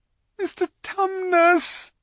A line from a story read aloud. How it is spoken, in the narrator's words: bawled Lucy in his ear